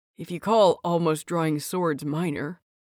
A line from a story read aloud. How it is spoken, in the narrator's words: he mutters